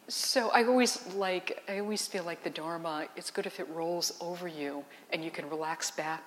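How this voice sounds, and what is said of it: Soft, quiet speaking voice. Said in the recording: “it's my voice just being the way that the voice is, a little on the soft side”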